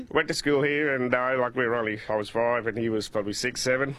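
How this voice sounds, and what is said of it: Australian accent. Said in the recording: “we had three Australian boys our age, and that's where we got our accent from.”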